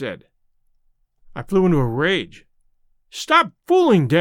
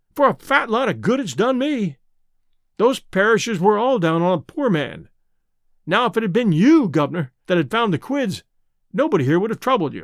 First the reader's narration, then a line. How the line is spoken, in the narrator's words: I cried